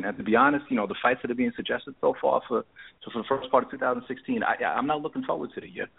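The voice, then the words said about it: New York accent. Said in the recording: “Originally New York. ... I heard the accent.”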